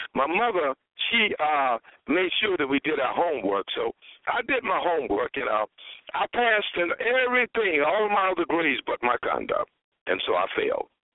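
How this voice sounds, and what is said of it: Hoarse voice. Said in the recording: “I'm a little hoarse.”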